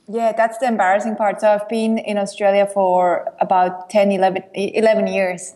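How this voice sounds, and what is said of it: Swiss European accent. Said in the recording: “that you are from somewhere in Europe... you've got an accent... I happen to know you're from Switzerland... accent is still there”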